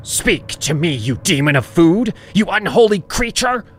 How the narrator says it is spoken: Mother barked

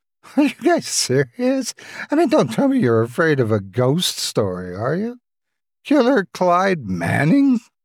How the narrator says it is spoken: She chuckled in sarcasm

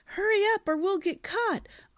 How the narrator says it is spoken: yelling

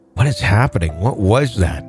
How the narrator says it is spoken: my mom whispered

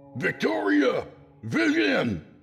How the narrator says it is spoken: I shouted

